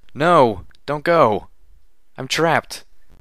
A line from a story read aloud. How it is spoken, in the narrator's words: I cried out, my hind legs crushed under a fallen wall